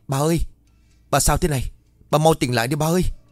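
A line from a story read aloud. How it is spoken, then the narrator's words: Frightened scream. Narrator (Vietnamese): Ông Kim sợ quá rồi hét lớn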